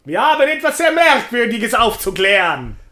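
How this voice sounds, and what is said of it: Put-on Sicilian dialect. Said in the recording (German): “das machen wir jetzt im Dialekt ... Also wir machen das ein zweites Mal im Dialekt ... auf Sizilianisch”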